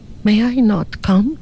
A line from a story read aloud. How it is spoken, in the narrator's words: she pleaded